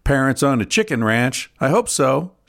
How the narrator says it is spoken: laughed

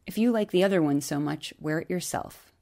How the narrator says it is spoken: Calmly and deliberately, as if speaking to an unruly child, as if speaking to her Brady, Gretchen said

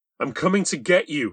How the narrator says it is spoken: said triumphantly

